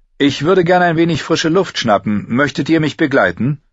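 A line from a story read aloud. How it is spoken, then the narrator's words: Calling out to her. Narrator (German): rief ihr zu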